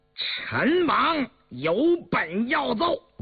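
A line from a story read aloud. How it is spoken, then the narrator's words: Eager, loud. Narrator (Chinese): 早已等得心痒难耐的应声而起，大声说道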